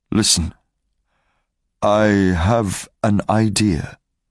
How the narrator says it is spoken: Marius said slowly

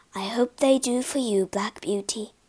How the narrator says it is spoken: she whispered

